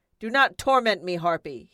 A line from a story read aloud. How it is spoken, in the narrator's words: he bellowed